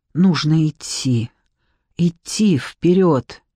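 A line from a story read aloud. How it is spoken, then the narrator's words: Hoarse rasp. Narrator (Russian): прохрипел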